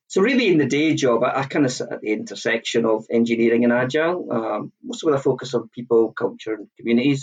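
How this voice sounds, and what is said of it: Scottish accent. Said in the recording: “I'm an Edinburgh, Scotland based. You can probably tell the accent.”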